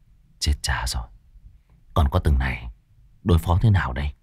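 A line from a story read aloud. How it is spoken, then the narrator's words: Worried muttering. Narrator (Vietnamese): A Pủa miệng lẩm bẩm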